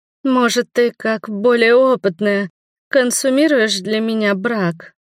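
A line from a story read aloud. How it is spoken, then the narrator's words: Timid. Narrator (Russian): робко произнесла Валерия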